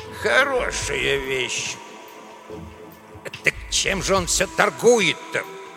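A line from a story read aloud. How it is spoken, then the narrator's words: Grumbling. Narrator (Russian): ворчал Эдуардо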